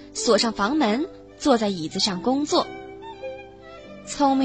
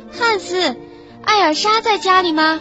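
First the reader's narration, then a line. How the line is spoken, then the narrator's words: Calling out. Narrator (Chinese): 喊道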